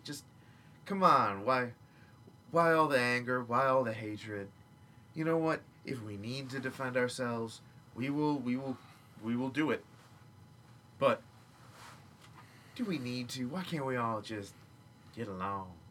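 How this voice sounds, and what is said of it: Laid-back hippie character voice. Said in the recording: “your hippie voice was the same as your Valley Girl voice, minus the likes and oh my gods”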